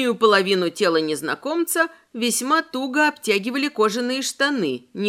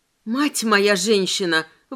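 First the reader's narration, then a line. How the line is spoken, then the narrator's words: Strained, forced out. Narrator (Russian): выдавила я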